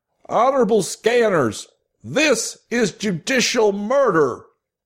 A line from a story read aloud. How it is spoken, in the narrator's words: Martel then shouted